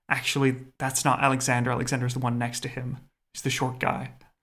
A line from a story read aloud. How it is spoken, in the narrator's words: Somebody whispers into the ear of the queen mother